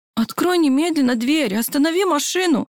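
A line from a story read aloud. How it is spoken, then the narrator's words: Indignant demand. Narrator (Russian): Возмущенно потребовала я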